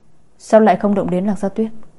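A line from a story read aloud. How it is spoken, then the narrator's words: Plain. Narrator (Vietnamese): Ngô Tĩnh hỏi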